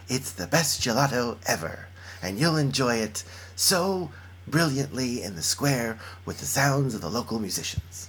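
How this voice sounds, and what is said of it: Rick Steves impression, travel-host style. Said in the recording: “Say it in your Rick Steves voice ... That's my Rick Steves ... That's very good. I feel like I'm watching the television program.”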